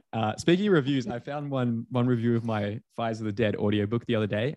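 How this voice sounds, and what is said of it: Australian accent. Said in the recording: “Hasn't done anything about that accent ... it's an unintelligible accent. Only a Brit could understand this ... with an Australian accent”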